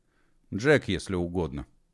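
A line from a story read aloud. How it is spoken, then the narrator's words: Boy's mutter. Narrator (Russian): буркнул парнишка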